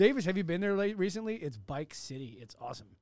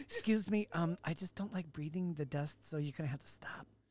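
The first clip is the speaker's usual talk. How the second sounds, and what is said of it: Imitates a fussy woman's voice. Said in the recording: “that's my impersonation of a Davis person? It's a liberal woman”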